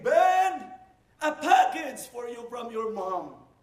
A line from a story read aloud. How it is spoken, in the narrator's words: her voice calling my name